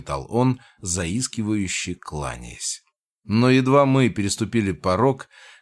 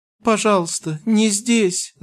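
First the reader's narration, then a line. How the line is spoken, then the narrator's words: Whimpering plea. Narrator (Russian): заскулил он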